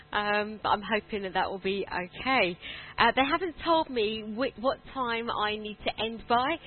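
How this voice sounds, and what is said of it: Soft southern English accent. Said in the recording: “my rather soppy southern accent”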